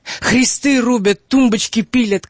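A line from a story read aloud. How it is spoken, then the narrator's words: Old man shouting. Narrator (Russian): кричал старик Богодул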